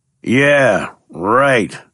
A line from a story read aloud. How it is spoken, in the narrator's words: scoffed Sammy